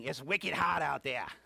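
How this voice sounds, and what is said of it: New England accent. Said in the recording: “let's do the New England thing ... I'm getting my New England accent back a little bit here and there”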